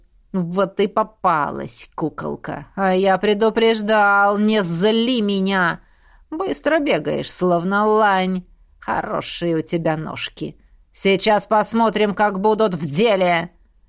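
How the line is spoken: Enraged brute's growl. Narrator (Russian): Прорычал разозленный мордоворот

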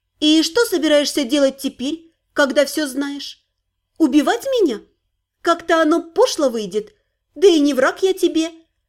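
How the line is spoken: Calm, measured. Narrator (Russian): размеренно и спокойно произнесла моя Дайкая

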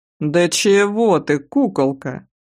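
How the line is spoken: Lazy drawl. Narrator (Russian): лениво протянул тот

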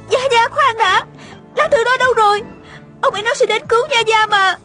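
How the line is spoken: Hurried cry. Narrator (Vietnamese): Tiêu Uyển Nhi vội la lên

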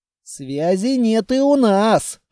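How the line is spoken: Grumbling. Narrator (Russian): проворчал я

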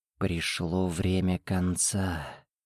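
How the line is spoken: Death's whisper. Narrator (Russian): шепот смерти

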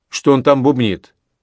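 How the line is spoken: Rude interruption. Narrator (Russian): опять грубо вмешался Паку

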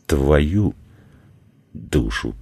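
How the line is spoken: Through gritted teeth. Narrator (Russian): процедил сквозь зубы Владислав

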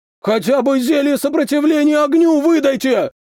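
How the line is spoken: Man yelling. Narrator (Russian): заорал мужик

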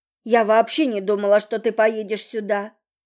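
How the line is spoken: Angry reply. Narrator (Russian): ответила я зло

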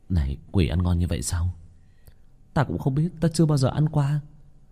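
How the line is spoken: Muttering. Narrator (Vietnamese): Có nhân sĩ đuổi quỷ nhuốt nước bọt, lầm bầm với đồng bọn ở bên cạnh

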